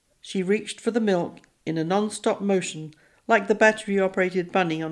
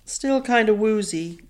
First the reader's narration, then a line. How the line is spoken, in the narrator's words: Craig admitted, stifling a yawn